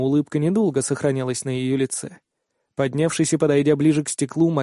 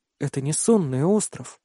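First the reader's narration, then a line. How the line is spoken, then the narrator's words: Bewildered speech. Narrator (Russian): растерянно произнесла Айрилен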